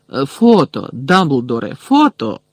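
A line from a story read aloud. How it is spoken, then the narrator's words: Excited exclamation. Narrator (Ukrainian): збуджено вигукнув Бегмен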